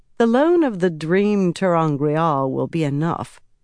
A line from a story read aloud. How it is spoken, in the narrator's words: Egwene said dryly